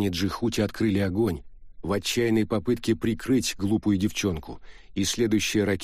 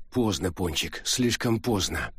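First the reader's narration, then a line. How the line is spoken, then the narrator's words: Inaudible mutter. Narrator (Russian): пробормотал Джихути, но не был услышан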